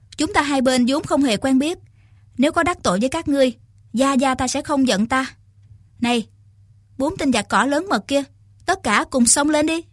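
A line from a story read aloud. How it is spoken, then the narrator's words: Young woman, smiling. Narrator (Vietnamese): Thiếu nữ mỉm cười nói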